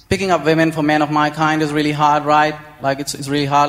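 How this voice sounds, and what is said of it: Indian English accent. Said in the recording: “this accent ... we don't have the coolest accent, Indian men ... make fun of our accent”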